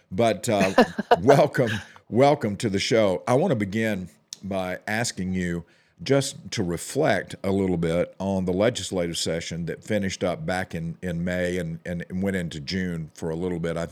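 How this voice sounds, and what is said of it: Voice strained from a cold. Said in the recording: “apologize for my voice. I'm struggling a little bit today. Got a little bit of a cold going on.”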